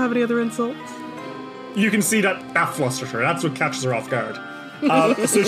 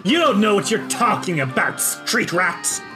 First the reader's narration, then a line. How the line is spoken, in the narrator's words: she snarls and says